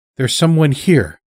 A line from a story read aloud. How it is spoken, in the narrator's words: Sister Leo said